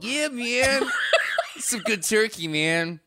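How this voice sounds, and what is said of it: Laid-back hippie voice. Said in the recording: “your hippie impression”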